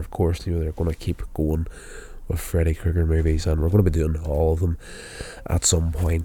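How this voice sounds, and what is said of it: Sick, wheezy voice from cold. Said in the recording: “as I get over this cold ... I'm just having a bit of a hard time actually talking at the moment. You can probably hear it in my voice. I'm a little bit of a wheeze going on here”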